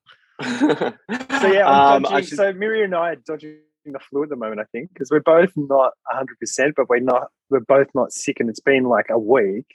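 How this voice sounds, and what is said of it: Throaty, congested, slightly nasal voice. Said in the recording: “losing my voice ... you sound a little dodgy ... Bit throaty ... a little bit blocked up. You know, a little bit nasal.”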